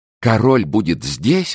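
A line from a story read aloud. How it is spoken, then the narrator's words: Excited exclamation. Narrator (Russian): воскликнула Монтале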